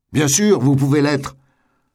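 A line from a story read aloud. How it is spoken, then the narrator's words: Woman yelling. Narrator (French): hurla-t-elle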